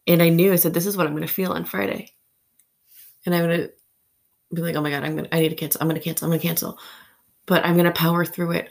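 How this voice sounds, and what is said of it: Anxious, nervous voice. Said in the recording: “heard it in my voice ... the anxiety ... the nerves”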